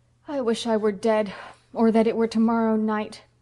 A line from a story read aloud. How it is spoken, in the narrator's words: groaned Phil